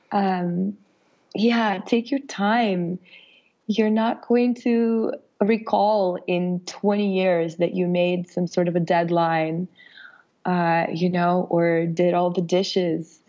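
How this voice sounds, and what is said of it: Raspy, slightly sick voice. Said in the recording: “as you can hear from my raspy voice, I'm a little bit under the weather”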